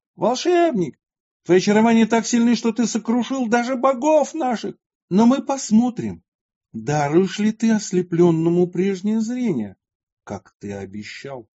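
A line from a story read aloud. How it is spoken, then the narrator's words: Ruler's angry shout. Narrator (Russian): Правитель же закричал на святого Иулиана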